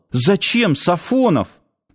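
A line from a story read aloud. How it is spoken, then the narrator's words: Sudden exclamation. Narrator (Russian): спохватившись, воскликнул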